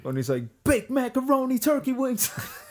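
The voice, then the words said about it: Imitates a rapper's voice. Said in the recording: “one of the best Ghostface impersonators I've ever heard ... make it sound just like Ghostface”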